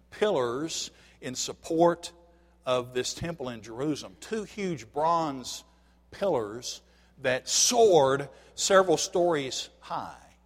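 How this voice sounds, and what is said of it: Tennessee accent. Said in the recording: “My Tennessee accent”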